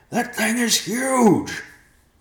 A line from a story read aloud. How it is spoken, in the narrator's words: Riverpaw yelled